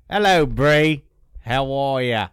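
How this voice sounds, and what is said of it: Put-on Australian-sounding accent. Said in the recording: “That's more Australian than it is. ... British.”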